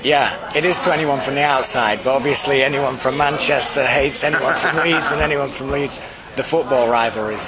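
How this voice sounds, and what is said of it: Faint Yorkshire accent. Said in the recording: “my accent's a faint Yorkshire, I suppose.”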